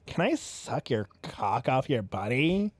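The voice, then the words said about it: Creepy put-on voice. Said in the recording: “creepy voice ... That's the voice of someone coming up.”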